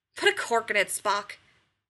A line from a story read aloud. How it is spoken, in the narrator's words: McCoy snaps